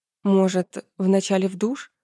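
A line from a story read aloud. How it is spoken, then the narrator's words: Timid question. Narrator (Russian): робко спросила Настя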